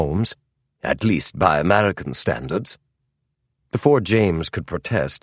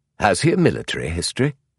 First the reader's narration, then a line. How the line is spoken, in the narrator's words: James chuckled